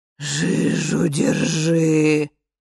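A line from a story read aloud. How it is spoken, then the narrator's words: Moaning from behind. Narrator (Russian): застонала за спиной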